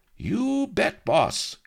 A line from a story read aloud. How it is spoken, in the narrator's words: cried Enchilada eagerly